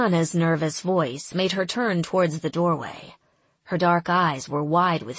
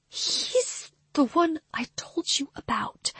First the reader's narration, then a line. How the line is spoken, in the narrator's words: she whispered